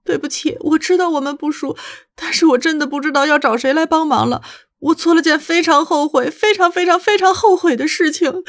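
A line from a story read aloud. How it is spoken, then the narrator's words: Sobbing. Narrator (Chinese): 那个抽泣着的声音这样说道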